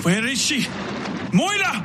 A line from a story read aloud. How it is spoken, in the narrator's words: Vasily shouted